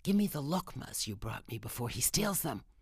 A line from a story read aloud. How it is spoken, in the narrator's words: Nona whispered to me